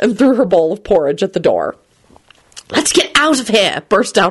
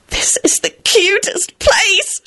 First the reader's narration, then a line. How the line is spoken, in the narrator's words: she squealed